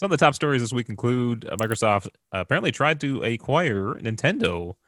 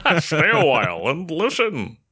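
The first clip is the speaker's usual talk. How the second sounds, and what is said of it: Imitates a video game character's voice. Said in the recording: “that your Deckard Cain impression?”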